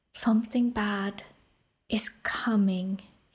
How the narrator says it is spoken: sighed

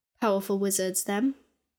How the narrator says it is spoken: she said gravely

